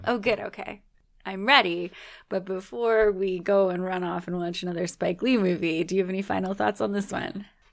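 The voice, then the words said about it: Raspy, strained voice. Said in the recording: “Even my raspy voice. ... Especially your raspy voice. ... I wasn't sure that my voice was actually going to hold out much longer”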